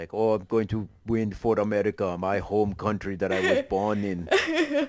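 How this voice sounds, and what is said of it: Imitates another person's voice, accent slipping. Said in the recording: “The accent's like, getting away from you a little bit there. ... I'm not good with accents.”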